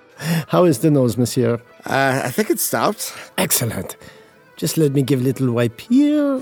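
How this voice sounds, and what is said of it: Fake French accent. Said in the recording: “I am not actually from France ... I get the better tips with the accent”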